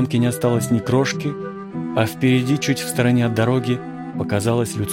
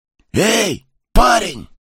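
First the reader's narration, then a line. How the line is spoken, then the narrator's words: Near whisper. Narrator (Russian): к нему обратились почти шепотом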